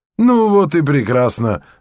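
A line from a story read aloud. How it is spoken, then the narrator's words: Loud laughter. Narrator (Russian): расхохотался Берия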